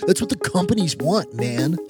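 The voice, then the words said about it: Silly put-on voice. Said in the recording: “I said that in a silly voice”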